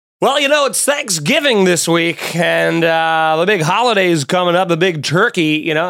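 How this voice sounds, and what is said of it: Play-by-play sports announcer voice. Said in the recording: “talking like a play-by-play announcer”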